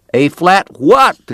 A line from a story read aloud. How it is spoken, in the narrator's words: the cowboy shouted back